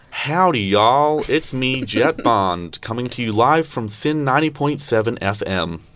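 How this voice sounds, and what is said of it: Put-on American accent. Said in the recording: “give us your best American accent ... That was pretty good.”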